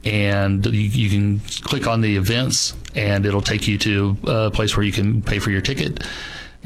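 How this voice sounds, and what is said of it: Slight Texas drawl. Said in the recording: “I'm getting a little bit of a drawl coming from you ... It's a Texas yeah. accent I'm hearing ... used to not be as bad, and I find it just gets worse as I go now.”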